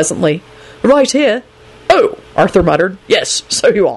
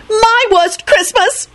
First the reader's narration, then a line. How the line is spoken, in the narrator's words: Rosie screeched